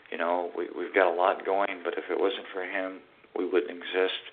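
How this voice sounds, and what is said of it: Tired-sounding voice. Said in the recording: “I'm very tired, as you can tell in my voice.”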